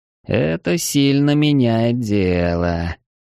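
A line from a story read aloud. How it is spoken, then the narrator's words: Slow drawl, pausing each word. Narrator (Russian): медленно протянул Эридани, делая паузу после каждого слова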